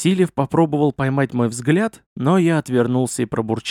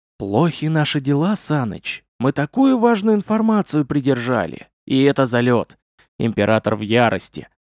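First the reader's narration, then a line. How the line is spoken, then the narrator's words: Confiding whisper, suppressed smile. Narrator (Russian): с трудом сдержав улыбку, я нахмурился, доверительно зашептал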